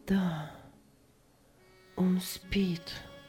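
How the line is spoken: Strange, altered voice. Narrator (Russian): ответила Аня чужим голосом

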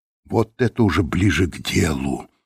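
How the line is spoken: Excited whisper. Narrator (Russian): прошептал Лэндон, не в силах скрыть волнение

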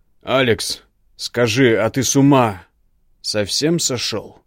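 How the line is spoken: Barked. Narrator (Russian): Гаркнул на меня Игнар

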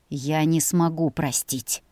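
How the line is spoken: Angry, through teeth. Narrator (Russian): Процедил он зло

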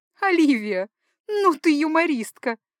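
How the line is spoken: Sobbing dancer. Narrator (Russian): всхлипывая, проговорила танцовщица

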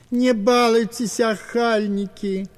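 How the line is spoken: Old man's plaintive plea. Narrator (Russian): жалобно просил старик

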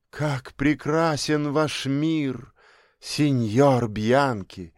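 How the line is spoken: Exclaimed. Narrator (Russian): воскликнула она

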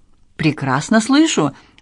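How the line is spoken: Joyful, stumbling broken French. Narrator (Russian): он добавил на безобразном французском, радостно запинаясь на каждом слоге

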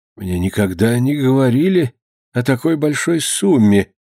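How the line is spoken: Timid father. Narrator (Russian): робко подал голос отец

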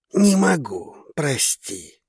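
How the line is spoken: Mutter. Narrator (Russian): пробормотал он

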